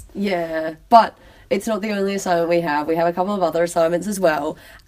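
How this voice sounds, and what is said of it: Unwell, poor-sounding voice. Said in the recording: “we decided to start recording this podcast when I'm sick... my voice is terrible”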